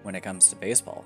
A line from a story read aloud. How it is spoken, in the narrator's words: said Todd